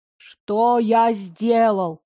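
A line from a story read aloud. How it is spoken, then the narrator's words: Gruff imitation of male voice. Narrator (Russian): спросила я грубым голосом, стараясь, чтобы он был похож на мужской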